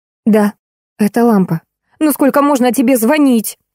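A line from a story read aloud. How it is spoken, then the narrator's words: Girl's angry exclamation. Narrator (Russian): с гневом воскликнула девушка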